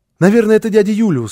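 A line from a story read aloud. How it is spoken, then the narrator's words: Excited child exclaiming. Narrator (Russian): воскликнул малыш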